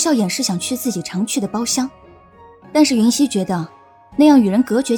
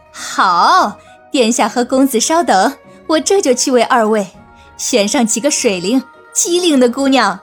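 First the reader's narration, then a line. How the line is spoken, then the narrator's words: Laughing. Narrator (Chinese): 锦娘笑道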